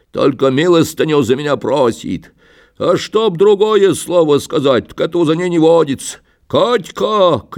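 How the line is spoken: Shout. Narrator (Russian): крикнул он

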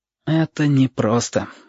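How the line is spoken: Sigh. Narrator (Russian): вздохнул Сашка

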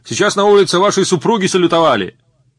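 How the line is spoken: Cheerful young cadet shouting. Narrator (Russian): Веселый юнкер на ходу крикнул

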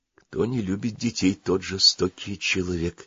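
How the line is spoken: Quiet. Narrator (Russian): тихо сказала Маруся

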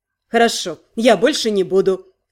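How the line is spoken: Snorting. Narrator (Russian): хмыкнул Най

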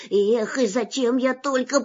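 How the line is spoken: Muttered. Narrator (Russian): пробормотал он

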